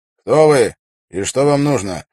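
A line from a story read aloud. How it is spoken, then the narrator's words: Gruff question. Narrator (Russian): грубо спросил стражник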